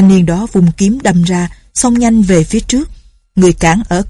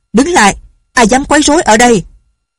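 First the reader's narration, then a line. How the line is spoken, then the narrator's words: Shout. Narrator (Vietnamese): một người chạy ra quát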